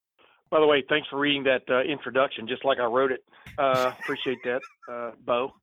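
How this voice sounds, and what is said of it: Southern American accent. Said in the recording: “You've always had the Southern accent.”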